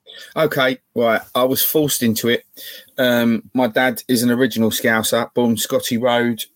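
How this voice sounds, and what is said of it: Cockney-sounding English accent. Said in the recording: “you sound like a Cockney reject”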